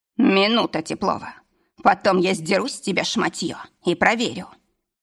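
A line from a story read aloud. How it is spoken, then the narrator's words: Menacing growl. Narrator (Russian): угрожающе рыкнул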